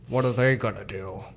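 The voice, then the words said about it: Voice of God character. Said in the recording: “your God impression”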